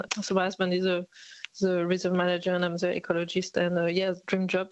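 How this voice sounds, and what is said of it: French accent. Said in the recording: “my accent is not very Aussie, so I come from France originally”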